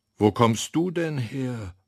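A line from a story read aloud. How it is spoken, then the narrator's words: Loud call, boy. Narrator (German): ruft der Junge laut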